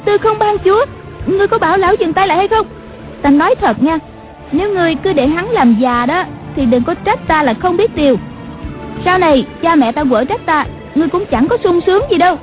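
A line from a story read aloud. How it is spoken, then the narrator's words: Frightened woman crying out. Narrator (Vietnamese): Nàng giật mình kinh hãi la lên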